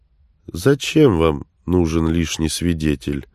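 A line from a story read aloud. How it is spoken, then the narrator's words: Through gritted teeth. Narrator (Russian): сквозь зубы процедил Стоянович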